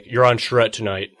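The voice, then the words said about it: Jon Hamm as Don Draper impression. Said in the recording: “good John Hamm impression”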